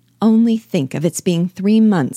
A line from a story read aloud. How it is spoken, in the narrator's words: she cried